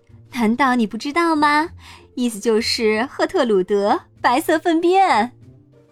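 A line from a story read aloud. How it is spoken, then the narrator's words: Laughing loudly. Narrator (Chinese): 弗里达大笑道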